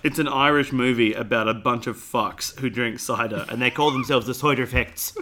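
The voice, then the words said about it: Bad put-on Irish accent. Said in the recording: “Terrible accent. I apologise to all of our Irish brothers and sisters.”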